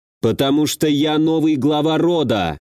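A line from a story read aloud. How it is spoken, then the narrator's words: Loud. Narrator (Russian): громко произнес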